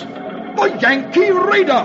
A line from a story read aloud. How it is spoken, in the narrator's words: the English sea captain recognizes John Paul Jones' famous ship and exclaims